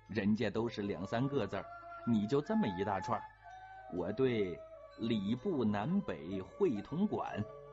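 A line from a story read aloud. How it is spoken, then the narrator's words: Laughing complaint. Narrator (Chinese): 永琪笑着抱怨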